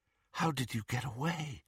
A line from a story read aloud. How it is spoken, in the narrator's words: Harry asked, and he was not surprised to hear himself whispering